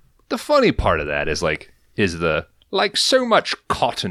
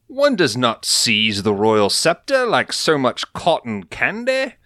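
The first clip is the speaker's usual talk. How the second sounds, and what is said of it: Put-on English accent. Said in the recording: “So you not- do the English accent, but not the Jamaican.”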